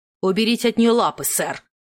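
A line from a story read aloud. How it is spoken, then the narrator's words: Barked. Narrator (Russian): Рявкнула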